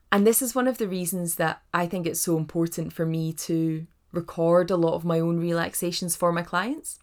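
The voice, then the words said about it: Scottish accent. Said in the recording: “my voice, this lovely Scottish accent”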